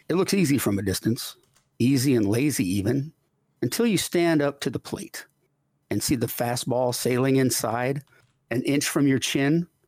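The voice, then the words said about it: Formal poetry-reading voice. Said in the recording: “put on my reader voice”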